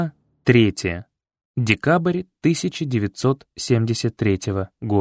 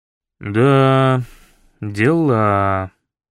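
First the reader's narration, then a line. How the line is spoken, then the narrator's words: Drawn-out elderly man. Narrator (Russian): протянул пожилой милиционер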